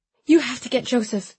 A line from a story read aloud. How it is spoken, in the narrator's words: I said desperately